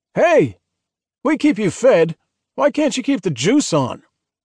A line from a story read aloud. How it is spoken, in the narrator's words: one of them called out